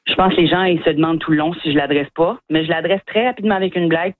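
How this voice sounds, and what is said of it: Acadian French accent. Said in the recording (French): “mon accent ... humoristes acadiens”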